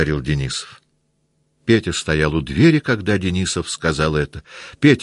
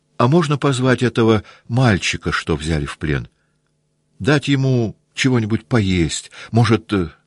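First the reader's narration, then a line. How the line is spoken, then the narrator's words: Shy, frightened. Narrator (Russian): покраснев и испуганно глядя на офицеров, он сказал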